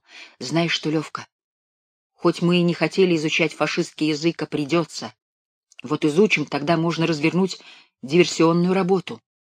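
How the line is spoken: Whisper. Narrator (Russian): шепнул

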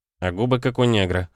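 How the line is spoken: Smirking grunt. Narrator (Russian): хмыкнул Нестор

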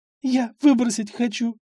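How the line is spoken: Convulsive sobbing. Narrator (Russian): судорожно всхлипывала Сонечка

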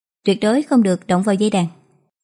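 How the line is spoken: Cold male voice. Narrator (Vietnamese): Một nam tử cẩm y lạnh lùng nói

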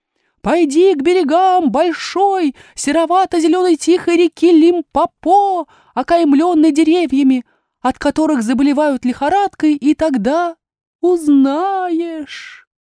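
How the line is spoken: Sad bird cry. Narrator (Russian): Колокола птица печально вскрикнула и сказала

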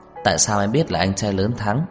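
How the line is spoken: Smiling question. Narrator (Vietnamese): Trang Ngải Lâm mỉm cười hỏi

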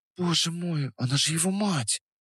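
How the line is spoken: Whisper. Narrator (Russian): прошептала Настя

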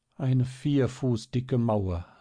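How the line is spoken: Quiet sigh to herself. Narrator (German): seufzte Marie leise vor sich hin

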